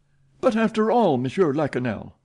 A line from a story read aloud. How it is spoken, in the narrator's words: cried Richard